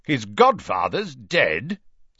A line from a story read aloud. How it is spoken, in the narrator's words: said Uncle Vernon loudly